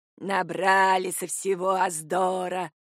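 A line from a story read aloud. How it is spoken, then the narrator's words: Grumbling. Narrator (Russian): ворчала костелянша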